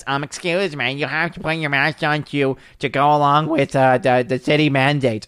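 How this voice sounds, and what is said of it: Put-on generic teenage kid voice. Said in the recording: “I don't know why I gave it that voice. ... That's just my generic like high school age, age kid.”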